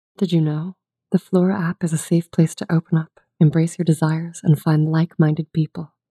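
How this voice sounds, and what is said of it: Sultry female voice. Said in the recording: “do a sultry female voice”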